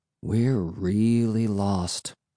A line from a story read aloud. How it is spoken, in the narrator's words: I murmured with a sigh